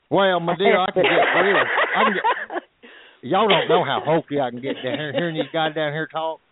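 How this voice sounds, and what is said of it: Texas accent. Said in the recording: “I kind of like your Texas accent.”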